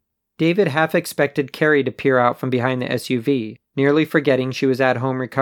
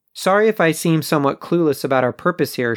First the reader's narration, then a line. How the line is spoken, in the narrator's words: Sean said